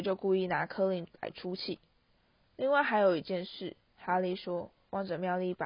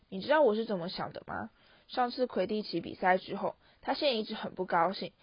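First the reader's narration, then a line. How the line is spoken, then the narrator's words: Sharp, stern. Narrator (Chinese): 荣恩厉声说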